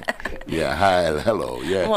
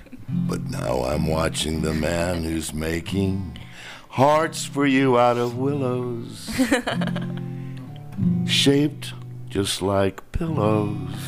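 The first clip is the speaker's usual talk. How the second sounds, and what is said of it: Deep-voiced singing. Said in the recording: “that was a deep voice”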